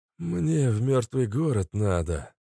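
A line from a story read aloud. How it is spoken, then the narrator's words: Breathless old man, chattering teeth. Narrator (Russian): стуча зубами, выдохнул старик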